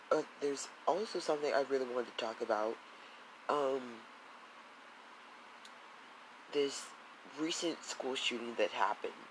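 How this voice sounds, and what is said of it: Sick-sounding voice. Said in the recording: “as you may or may not tell by how my voice sounds, I got sick recently”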